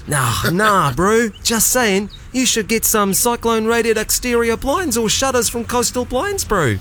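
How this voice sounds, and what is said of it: New Zealand accent. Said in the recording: “in your Kiwi accent”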